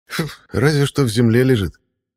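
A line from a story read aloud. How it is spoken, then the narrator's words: Scornful snort. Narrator (Russian): фыркнул Эйнор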